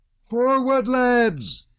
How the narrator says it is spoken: He shouted in a voice piercing as a child's

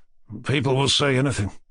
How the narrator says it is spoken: Rogojin observed dryly

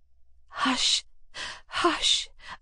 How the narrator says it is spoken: I whispered, trying to calm her excitement

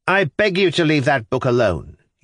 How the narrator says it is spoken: he brought out sharply

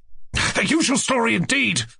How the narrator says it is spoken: cried Ganya

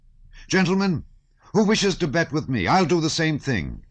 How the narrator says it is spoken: he suddenly cried

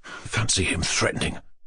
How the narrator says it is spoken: Ganya said to his sister in an undertone

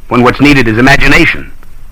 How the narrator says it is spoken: said scornfully

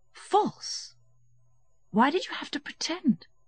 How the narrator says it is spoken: said Varenka gently

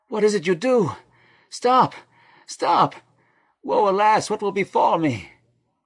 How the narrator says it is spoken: His moans

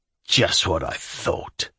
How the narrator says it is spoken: Shatov whispered furiously

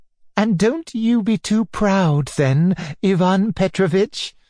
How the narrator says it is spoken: added Anna Andreevna, laughing

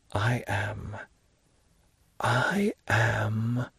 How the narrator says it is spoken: with a calm and melancholy look, he whispered

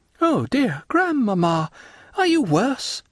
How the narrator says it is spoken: exclaimed Valentine, perceiving all these signs of agitation

